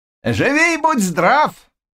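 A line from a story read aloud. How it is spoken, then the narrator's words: Sudden shout. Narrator (Russian): вдруг закричал Заглоба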